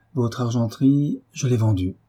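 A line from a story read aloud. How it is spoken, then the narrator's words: Firm voice. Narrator (French): reprit Marie d'une voix ferme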